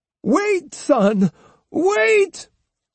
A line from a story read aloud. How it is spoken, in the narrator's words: cried Osugi